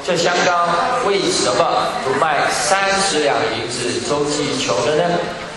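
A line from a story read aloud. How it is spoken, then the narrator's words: Plain. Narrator (Chinese): 他说这话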